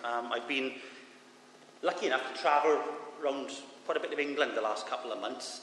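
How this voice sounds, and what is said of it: Thick Swansea Welsh accent, fast speech. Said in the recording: “my thick Swansea Jack accent ... I do speak very quickly”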